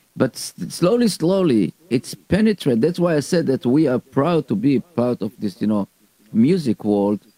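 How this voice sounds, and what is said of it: Israeli accent. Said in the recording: “You are Israeli. You know, with your accent.”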